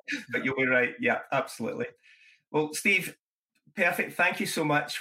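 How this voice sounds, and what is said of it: Speaker's own noticeable accent. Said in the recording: “you probably detect my accent here”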